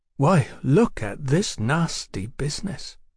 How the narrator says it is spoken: Tom suddenly declared, in a muffled, dreamy voice

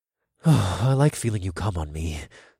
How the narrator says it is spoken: I murmured

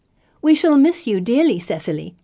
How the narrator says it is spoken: I say, smiling brightly

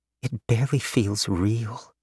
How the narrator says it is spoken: Mei Ling murmured

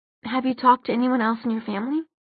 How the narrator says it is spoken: Maya asked, her voice soft

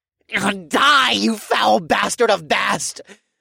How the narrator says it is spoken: the High Priest screamed

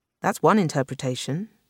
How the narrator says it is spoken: Ji said, more coldly

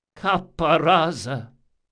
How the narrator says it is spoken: he said in an almost pleading tone

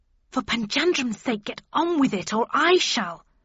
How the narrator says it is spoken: snapped Mrs

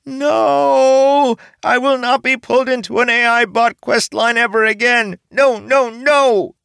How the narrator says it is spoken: Caesarbo nearly pulled his hair out as he screamed

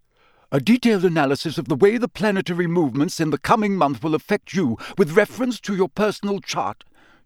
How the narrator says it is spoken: she snapped, sounding much more like Professor McGonagall than her usual airy-fairy self

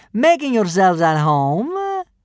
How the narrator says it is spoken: sneered the first kidnapper

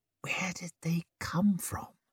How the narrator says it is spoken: he muttered

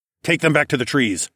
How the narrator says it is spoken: I barked at Leo

